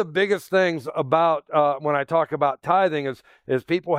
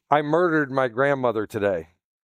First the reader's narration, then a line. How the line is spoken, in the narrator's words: he murmured